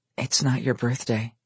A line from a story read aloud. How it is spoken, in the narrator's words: she whispered in his ear